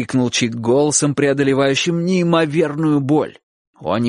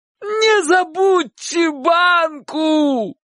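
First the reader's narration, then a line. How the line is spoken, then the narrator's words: Dying shout. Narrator (Russian): крикнул Чик предсмертным голосом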